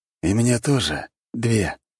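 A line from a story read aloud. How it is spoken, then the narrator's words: Declaring. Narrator (Russian): заявил ужас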